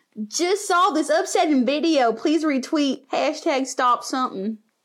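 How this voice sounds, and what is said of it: Put-on country accent. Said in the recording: “Say it without a country accent.”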